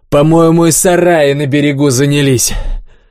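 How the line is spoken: Short laugh. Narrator (Russian): хохотнул

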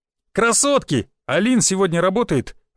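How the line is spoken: Calling out after. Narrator (Russian): выкрикнул он девчонкам вслед

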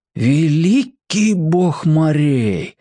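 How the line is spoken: Breathless exhale. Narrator (Russian): выдохнул Мир

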